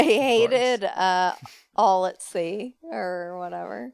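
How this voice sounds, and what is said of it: Usual voice. Nothing is said of it.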